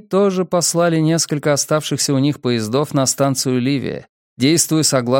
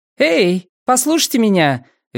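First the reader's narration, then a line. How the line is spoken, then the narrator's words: Cheerful shouting woman. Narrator (Russian): весело кричала раздающая воду женщина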